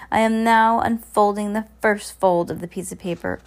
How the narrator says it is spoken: Olaf cried

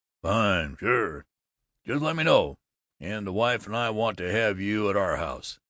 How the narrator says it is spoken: Babbitt boomed

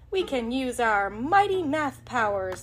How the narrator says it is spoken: Millie exclaimed

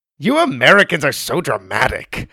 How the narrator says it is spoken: Aziza said

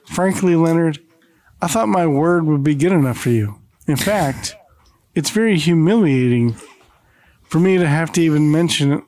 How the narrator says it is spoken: Clifton sighs, and says

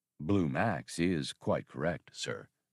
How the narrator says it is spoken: drawled the labor droid

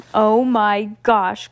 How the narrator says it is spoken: cried Melanie in between giggles

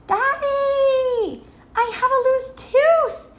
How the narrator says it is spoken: shouted

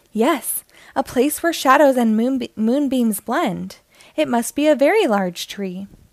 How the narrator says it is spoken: Benny nodded eagerly and said

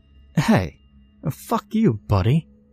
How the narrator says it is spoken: she said fiercely

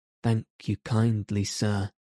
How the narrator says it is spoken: said Toad in a feeble voice

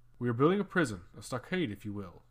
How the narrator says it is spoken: answered Regulus

